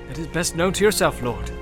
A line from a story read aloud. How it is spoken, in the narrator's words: said Hirgon